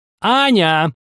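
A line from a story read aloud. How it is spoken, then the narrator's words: High, sharp voice. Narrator (Russian): кролик провозгласил высоким, резким голосом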